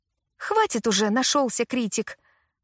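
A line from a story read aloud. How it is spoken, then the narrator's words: Irritated. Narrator (Russian): раздраженно ответила Лили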